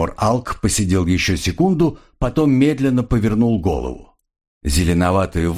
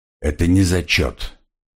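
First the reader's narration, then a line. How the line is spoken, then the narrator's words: Very quiet, strained. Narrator (Russian): очень тихо, с трудом выговорил Тимур Алк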